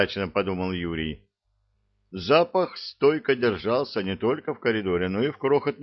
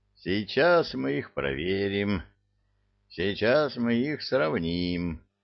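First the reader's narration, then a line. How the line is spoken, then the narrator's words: Hoarse wheeze. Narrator (Russian): прохрипел Мудрецкий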